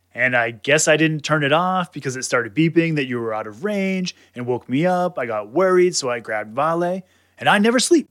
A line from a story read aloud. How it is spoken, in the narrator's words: shouted Vale